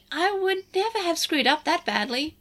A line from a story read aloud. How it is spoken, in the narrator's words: Lugamon chirped